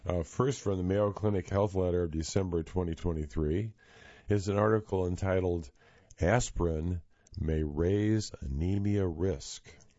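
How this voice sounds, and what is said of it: Hoarse voice. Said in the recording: “my voice is rather hoarse.”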